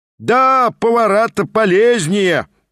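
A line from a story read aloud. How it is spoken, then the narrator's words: Seminarian shouting. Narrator (Russian): прокричал тот самый семинарист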